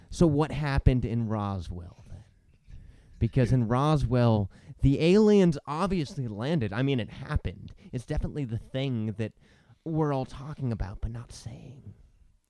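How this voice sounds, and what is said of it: Imitates another person's voice. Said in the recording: “I'm gonna get all Dan Carlin on this ... that's my Dan Carlin impression, which I've been doing a lot lately”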